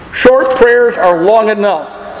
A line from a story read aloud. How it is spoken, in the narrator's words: said Charles Spurgeon